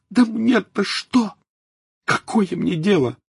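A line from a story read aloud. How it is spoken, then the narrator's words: Exclaiming. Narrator (Russian): воскликнула Тонкс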